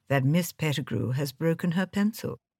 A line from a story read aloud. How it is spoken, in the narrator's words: said Colonel Race gently